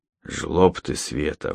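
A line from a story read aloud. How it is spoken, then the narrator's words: Sudden hoarse. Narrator (Russian): вдруг хрипло сказал он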